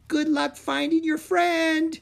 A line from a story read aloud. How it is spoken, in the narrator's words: Kiora called out